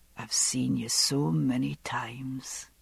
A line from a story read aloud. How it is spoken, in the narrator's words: he said, his voice whispering warm in my ear